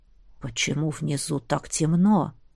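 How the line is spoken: Barely audible whisper. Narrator (Russian): раздался едва слышный шепот

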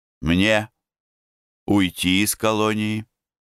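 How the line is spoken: Sad reply. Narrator (Russian): Я ему грустно ответил

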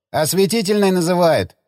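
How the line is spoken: Shouted. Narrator (Russian): крикнул он

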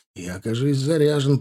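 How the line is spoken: Hoarse wheeze. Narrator (Russian): прохрипел

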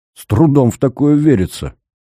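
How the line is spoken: Skeptical snort. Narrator (Russian): хмыкнул Корнев

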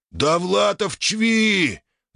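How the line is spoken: Yelling orc, interrupting. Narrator (Russian): заорал знакомый орк из толпы, перебив директора

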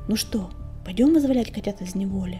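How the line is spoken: Whisper. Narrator (Russian): шепнул Клубок

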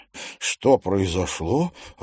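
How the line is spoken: Stunned mutter. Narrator (Russian): ошарашенно пробормотал он

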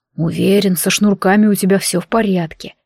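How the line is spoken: Quiet. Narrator (Russian): негромко произнес Змеулан

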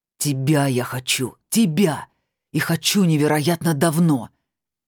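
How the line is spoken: Shouting. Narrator (Russian): прокричал он в ее изумленное лицо

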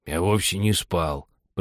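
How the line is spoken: Weak hoarse voice. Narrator (Russian): проговорил слабым хриплым голосом

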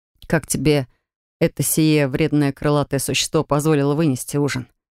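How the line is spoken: Student's mocking snort. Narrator (Russian): хмыкнул третьекурсник

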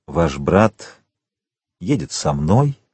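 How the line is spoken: Gentle. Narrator (Russian): мягко сказал граф

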